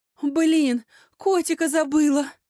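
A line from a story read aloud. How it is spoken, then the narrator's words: Sobbing. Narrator (Russian): Лекси аж всхлипнула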